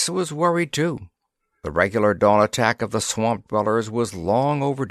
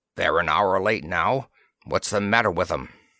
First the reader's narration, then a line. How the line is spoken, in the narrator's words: Breska, mastering his cough, grunted